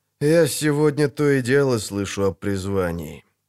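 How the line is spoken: Sighing. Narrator (Russian): вздохнул Геральт

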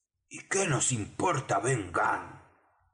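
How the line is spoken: Exclaimed. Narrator (Spanish): exclamó Merry

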